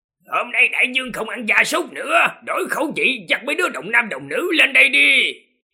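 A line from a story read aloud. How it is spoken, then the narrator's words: Shrill, piercing, displeased. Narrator (Vietnamese): Vị Linh Sơn Đại Vương này tỏ ra vẻ không hài lòng với đám gia súc, giọng the thé chói tai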